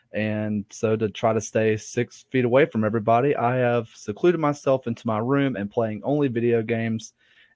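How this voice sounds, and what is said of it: Southern US Alabama accent. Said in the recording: “As you can tell by my accent, I'm definitely not from SoCal... I am from Alabama”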